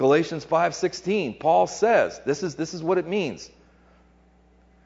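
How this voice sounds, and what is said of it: Usual voice. Nothing is said of it.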